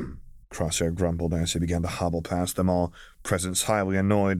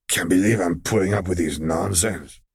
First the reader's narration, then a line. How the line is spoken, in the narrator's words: he muttered, tail lashing irritably